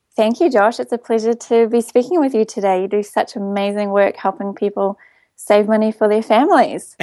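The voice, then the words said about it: New Zealand accent. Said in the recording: “your fabulous accent... quite beautiful... from a long way away. Down in New Zealand.”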